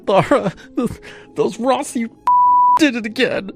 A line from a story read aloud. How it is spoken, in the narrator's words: sobbed